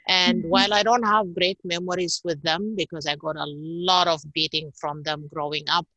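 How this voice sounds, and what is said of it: Italian-influenced English accent. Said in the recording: “all my teachers were Italian, which is where I picked up this accent in a way”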